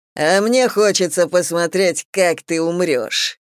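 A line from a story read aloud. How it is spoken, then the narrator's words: Beastly growl, fangs bared. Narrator (Russian): прорычал зверь, обнажая клыки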